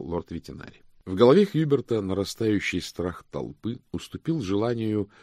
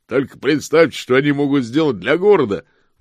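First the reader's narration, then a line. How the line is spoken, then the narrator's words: Shouted out. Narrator (Russian): выкрикнул господин Коровлик из оружейной гильдии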